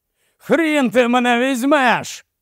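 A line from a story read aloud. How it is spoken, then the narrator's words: Colonel shouted out of habit. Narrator (Ukrainian): закричав полковник за звичкою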